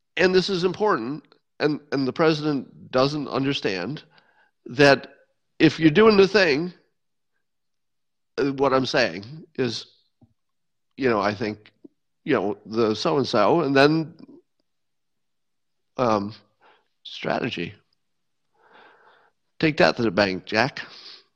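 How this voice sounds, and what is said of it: Imitates another person's voice. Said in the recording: “my Joe Biden impression ... I think I nailed it. It's version 1.0”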